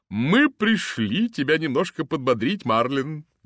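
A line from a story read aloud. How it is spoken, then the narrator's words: Cheerful. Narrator (Russian): весело сказала она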